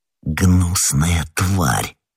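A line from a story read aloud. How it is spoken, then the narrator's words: Muttered. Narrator (Russian): пробормотал Д'Артаньян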